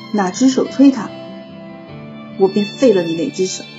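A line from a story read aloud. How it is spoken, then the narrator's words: Cold. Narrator (Chinese): 师兄冷声道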